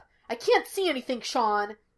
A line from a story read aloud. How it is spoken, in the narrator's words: Gus snapped